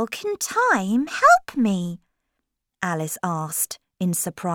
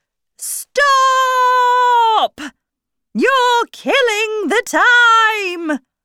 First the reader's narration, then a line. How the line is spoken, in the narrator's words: the Queen jumped up and shouted